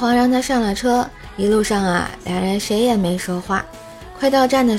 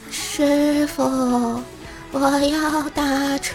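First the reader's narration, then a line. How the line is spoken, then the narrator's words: Eerie mournful female voice. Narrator (Chinese): 一个白衣女人要打车，声音异常凄惨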